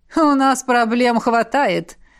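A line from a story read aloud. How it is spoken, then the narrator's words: Laughing. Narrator (Russian): рассмеялся полковник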